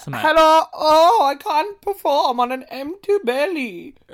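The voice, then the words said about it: Imitates an animated caterpillar character's voice. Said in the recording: “That's my impression of the fucking caterpillar”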